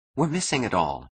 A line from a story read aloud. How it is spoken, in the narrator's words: she whispered